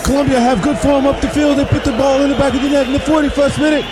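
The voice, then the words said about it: Put-on British soccer announcer accent. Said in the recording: “All the accent I'll do is British. That's it. The British soccer announcers.”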